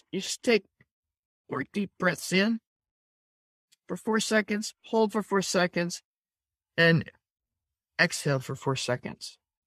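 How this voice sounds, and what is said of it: Slowed, lower, calmer voice. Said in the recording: “notice how that immediately slowed down my voice. ... My voice got out of my throat, back down to my chest.”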